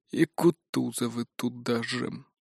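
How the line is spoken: Mumbled. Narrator (Russian): пробормотал Николай Семенович

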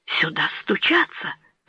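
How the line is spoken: Fearful trembling whisper. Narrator (Russian): прошептал герцог, дрожа от страха

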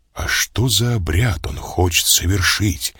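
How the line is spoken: Quiet question. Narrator (Russian): тихо спросил я

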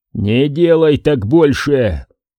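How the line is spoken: Roared. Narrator (Russian): проревел я

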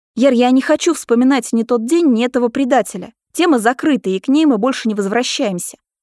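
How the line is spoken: Stern. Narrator (Russian): говорю строго

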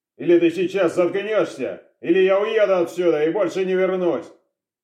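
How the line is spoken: Barked. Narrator (Russian): Рявкнул

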